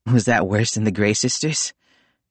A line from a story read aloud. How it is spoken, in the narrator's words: Will panted